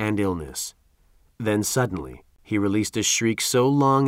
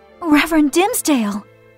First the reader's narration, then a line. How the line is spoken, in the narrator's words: exclaimed Hester, who was taken by surprise